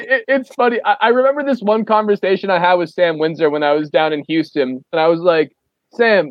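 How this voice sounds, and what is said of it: Usual voice. Nothing is said of it.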